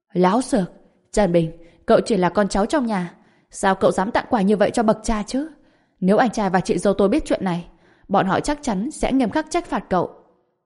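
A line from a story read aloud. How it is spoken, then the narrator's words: Furious shout. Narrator (Vietnamese): Giang Quốc Thịnh chồng cũng rất tức giận, phẫn nộ quát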